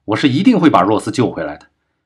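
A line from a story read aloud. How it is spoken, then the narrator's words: Angry. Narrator (Chinese): 钱海明怒道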